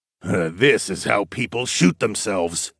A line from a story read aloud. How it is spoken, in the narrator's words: Darwin muttered